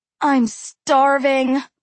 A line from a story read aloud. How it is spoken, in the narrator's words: Aru moaned